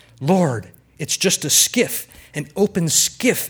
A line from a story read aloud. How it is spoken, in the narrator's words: Emily whispered